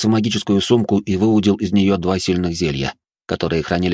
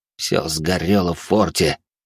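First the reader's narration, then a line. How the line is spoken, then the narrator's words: Through gritted teeth. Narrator (Russian): сквозь зубы процедил он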